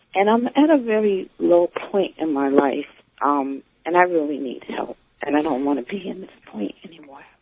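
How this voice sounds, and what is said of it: Sad, depressed-sounding voice. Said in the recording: “You sound so depressed.”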